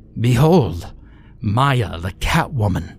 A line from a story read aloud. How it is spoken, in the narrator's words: Kunkel roared